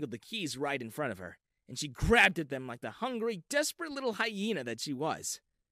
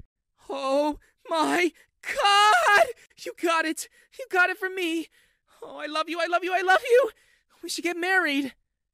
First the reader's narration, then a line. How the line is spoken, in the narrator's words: Sally screamed